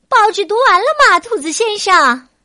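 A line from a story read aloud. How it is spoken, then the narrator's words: Loud call downstairs. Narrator (Chinese): 冲着楼下大声喊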